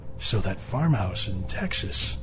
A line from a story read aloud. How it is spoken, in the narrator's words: Max whispered